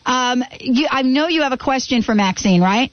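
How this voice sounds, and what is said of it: Louder, bigger speaking voice. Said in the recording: “I'll talk in my big voice.”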